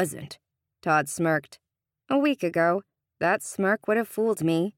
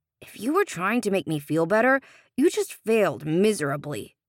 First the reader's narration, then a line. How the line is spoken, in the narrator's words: Sean grumbled